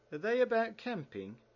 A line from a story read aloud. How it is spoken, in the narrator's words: eagerly